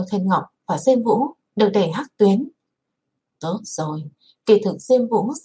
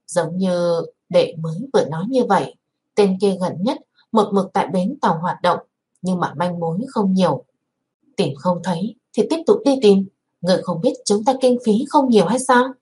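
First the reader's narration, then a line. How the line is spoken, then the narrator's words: Plain. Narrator (Vietnamese): Miêu Á nói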